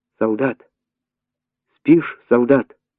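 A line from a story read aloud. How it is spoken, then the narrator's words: Frightened, repeating. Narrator (Russian): Она испуганно повторяла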